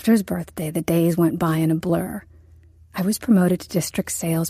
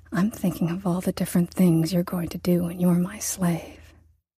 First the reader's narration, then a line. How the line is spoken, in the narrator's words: he whispered hotly in my ear